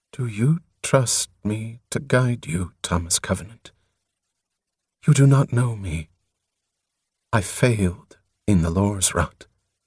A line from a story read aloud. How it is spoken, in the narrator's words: In a low voice, as if she were mortifying herself, she said